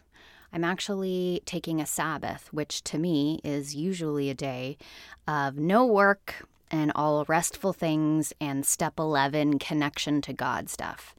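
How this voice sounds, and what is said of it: Deeper than usual voice. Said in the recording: “My voice is a little deeper today because this is the first time I'm using my voice today.”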